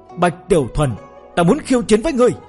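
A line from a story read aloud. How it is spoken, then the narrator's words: Skyward bellowing challenge. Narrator (Vietnamese): Bắc Hàn Liệt, gã ngửa mặt lên trời gào to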